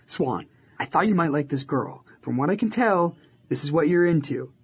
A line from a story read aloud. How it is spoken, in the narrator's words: he said